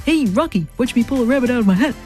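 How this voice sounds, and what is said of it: Bullwinkle cartoon voice impression. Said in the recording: “Bullwinkle ... try saying that in a normal voice”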